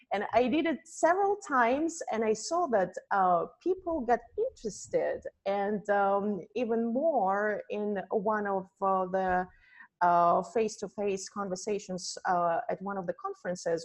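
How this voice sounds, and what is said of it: Russian accent. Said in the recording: “probably you can tell by my accent that I am from Russia and I am from Siberia”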